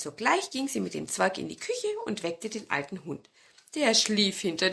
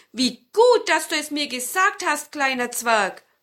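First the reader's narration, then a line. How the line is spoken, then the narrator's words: Grandmother calling out. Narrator (German): rief die Großmutter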